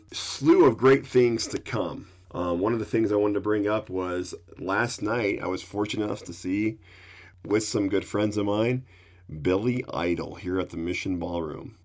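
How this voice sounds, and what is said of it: Deeper, sick-sounding voice. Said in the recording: “my voice has gotten a little deeper because of the flu I'm getting over”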